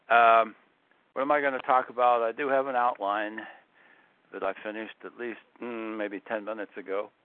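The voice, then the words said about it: Congested, sick-sounding voice. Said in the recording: “my voice is not normally like this. I have a cold.”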